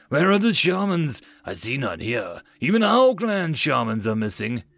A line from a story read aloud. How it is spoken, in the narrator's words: Torak growled